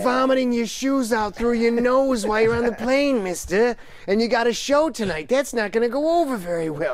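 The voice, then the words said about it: Imitates another person's voice. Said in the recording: “my bad Carney Cow impression”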